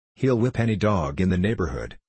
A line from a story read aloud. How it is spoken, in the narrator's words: said Mr